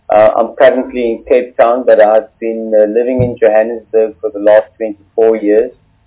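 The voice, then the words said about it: Cape Town accent. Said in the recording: “I'm a Cape Town boy, just from the accent”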